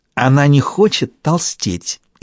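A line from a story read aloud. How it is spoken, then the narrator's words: Snide whisper. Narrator (Russian): ехидно прошептала Ирина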